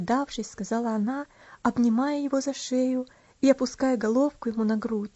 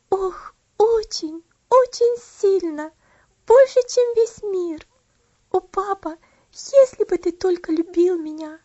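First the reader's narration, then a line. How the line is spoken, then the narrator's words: Words drowned in sobs. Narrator (Russian): Последнее слово потонуло в рыданиях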